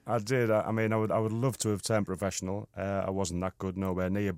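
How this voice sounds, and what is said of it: Cumbrian regional English accent. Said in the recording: “we can tell from your accent that you're not from really these parts ... I'm from Whitehaven in Cumbria.”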